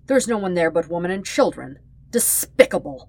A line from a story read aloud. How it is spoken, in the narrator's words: he spat